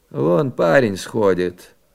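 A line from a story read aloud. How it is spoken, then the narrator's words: Hoarse wheeze. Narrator (Russian): прохрипел дядя Володя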